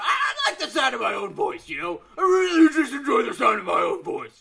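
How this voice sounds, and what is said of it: Wrestling promo character voice. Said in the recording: “character voice ... your promo voice”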